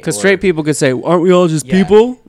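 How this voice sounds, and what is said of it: Mock straight guy voice. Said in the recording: “That was my straight guy accent.”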